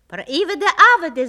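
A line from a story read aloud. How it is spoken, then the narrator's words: Several voices shouting. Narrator (Russian): закричали одни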